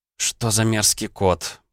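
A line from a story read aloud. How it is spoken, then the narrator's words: Moan. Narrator (Russian): простонала Наталья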